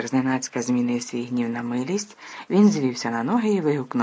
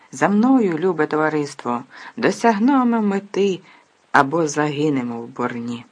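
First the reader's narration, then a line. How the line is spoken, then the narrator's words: Exclaimed. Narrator (Ukrainian): вигукнув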